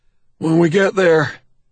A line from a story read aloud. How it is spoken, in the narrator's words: Robin pants after he's finished